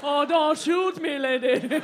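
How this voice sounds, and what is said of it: Put-on Grimsby accent. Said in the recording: “This is the Grimsby accent.”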